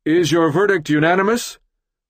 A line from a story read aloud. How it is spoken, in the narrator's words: Judge Ponder attempts to regain control by clearing his throat loudly and asking